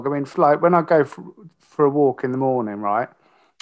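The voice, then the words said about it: Cockney-sounding English accent. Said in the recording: “That sounded very cockney. ... I let my posh accent slide.”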